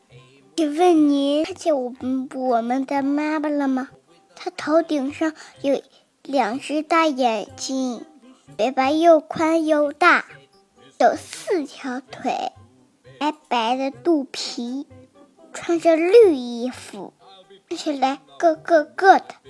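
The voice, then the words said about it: Quiet, soft-voiced question. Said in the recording (Chinese): “小声的问”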